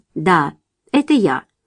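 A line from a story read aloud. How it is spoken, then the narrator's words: Calm answer. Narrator (Russian): Марчелло спокойно ответил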